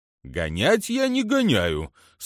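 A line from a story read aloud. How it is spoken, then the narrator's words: Mock-offended snort. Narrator (Russian): с притворной обидой хмыкнул он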